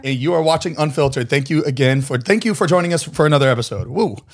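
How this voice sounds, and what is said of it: Hoarse, rusty voice. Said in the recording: “lost my voice ... A little rusty.”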